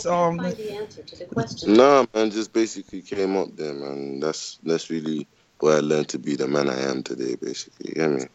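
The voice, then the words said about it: Slight British accent. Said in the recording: “I hear a little bit of a British accent.”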